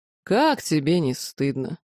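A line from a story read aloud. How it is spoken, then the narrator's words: Reproachful drawl. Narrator (Russian): неожиданно укоризненно протянул лорд Илахар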